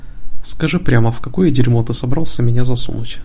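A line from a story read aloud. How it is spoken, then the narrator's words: Grim question. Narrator (Russian): мрачно поинтересовался Дэвид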